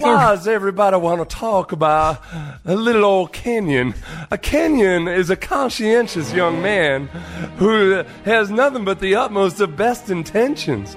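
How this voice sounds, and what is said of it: Southern Belle impression. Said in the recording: “do a Southern Belle impression”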